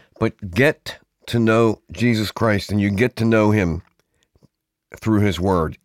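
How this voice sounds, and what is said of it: Ragged, worn-out voice. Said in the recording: “My voice is a little ragged ... I was cutting demos last night.”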